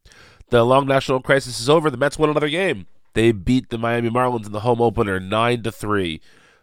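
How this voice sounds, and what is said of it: Nasal, congested voice from cold. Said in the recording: “I have a cold. I apologize for my nasal voice”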